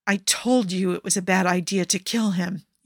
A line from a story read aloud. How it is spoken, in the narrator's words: Yusuf hisses